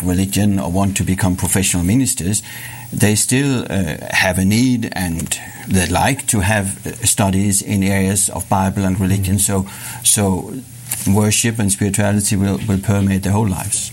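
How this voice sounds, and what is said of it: Danish accent in English. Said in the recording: “you're from the country of Denmark ... That's my excuse for the accent”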